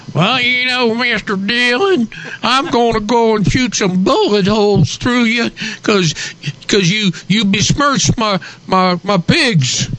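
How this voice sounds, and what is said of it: Put-on rural pig farmer accent. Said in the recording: “this is a pig farmer accent.”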